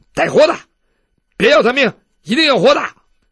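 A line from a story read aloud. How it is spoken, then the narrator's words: Shouting. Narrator (Chinese): 那个石软鞭的在旁边喊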